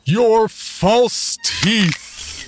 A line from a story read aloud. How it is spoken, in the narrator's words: boomed loud enough for the whole room to hear